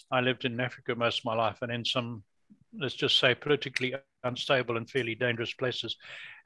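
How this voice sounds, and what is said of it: Foreign accent. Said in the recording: “you'll hear from my accent, I haven't been in Canada all my life”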